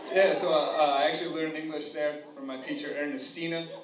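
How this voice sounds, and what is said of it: Indian accent. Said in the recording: “even though I have an Indian accent”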